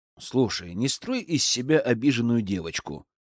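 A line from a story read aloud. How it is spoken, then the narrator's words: Calm voice. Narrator (Russian): произнес я спокойным голосом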